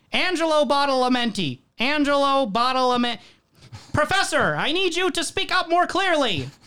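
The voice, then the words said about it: Loud imitation of a director's voice. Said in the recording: “do the Lynch voice ... the David Lynch voice ... we get to hear it quite loudly ... gets you into character”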